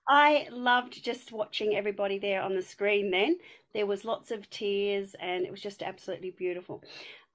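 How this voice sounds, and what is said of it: Strong broad Australian accent. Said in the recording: “the super ochre accent”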